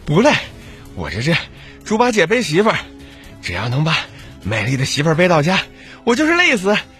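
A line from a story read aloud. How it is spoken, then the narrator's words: Panting. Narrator (Chinese): 他喘着气说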